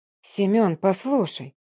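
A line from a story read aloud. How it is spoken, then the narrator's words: Soft whisper. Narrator (Russian): мягко прошептала я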